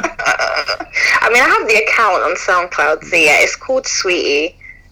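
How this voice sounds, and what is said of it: Speaks with a noticeable accent. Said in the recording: “sorry, my accent ... I don't pronounce my teeth”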